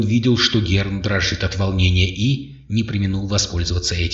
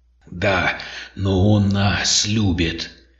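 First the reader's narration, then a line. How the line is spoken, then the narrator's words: Menacing, large creature. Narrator (Russian): грозно проговорил серг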